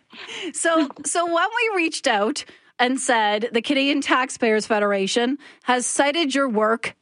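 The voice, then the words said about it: Canadian accent. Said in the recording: “hear the Canadian accent again”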